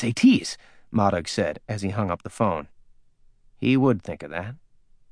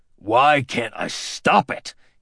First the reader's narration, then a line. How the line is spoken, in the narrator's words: He snarled